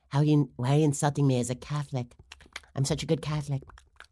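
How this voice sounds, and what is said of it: Imitation with slipping-dentures mouth sound. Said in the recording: “do my Nancy Pelosi impersonation, it's basically about her dentures slipping around in that mouth”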